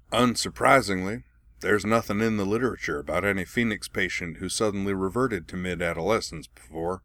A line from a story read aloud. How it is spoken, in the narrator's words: added dryly